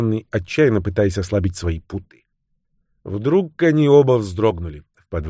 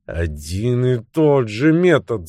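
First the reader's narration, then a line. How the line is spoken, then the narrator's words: Groaning. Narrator (Russian): застонал майор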